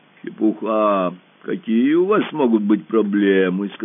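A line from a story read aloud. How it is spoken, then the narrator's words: Deep bass voice. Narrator (Russian): сказал он глубоким басом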